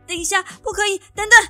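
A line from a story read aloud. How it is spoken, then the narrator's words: Urgent shout. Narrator (Chinese): 头急忙大喊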